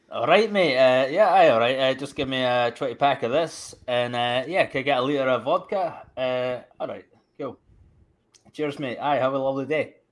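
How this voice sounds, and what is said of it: Natural regional British dialect. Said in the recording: “Say it in your normal dialect.”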